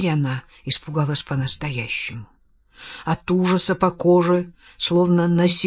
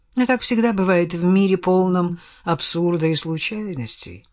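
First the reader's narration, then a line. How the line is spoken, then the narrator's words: Sighing. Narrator (Russian): вздохнул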